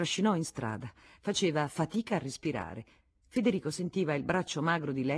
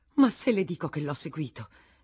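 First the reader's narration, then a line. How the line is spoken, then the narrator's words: Exclaiming. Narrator (Italian): esclamò la Vatnaz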